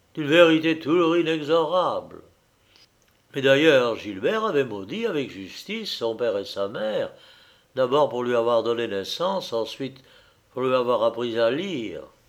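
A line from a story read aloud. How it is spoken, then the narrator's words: Sighed. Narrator (French): soupira Stello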